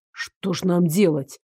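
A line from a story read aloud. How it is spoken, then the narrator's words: Muttered under breath. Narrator (Russian): буркнул себе под нос Дарек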